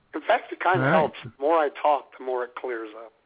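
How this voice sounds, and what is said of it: Hoarse, strained sick voice. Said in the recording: “some kind of virulent disease in my throat”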